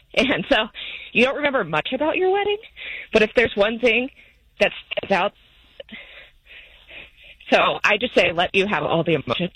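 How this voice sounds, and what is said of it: Choked-up, emotional voice. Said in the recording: “are you getting choked up now? ... I am.”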